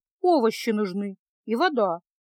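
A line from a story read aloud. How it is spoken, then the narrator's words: Grumbling. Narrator (Russian): буркнула Феса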